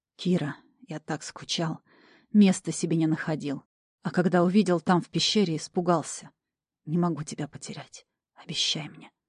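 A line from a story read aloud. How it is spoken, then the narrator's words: Whispering between kisses. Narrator (Russian): шептал между поцелуями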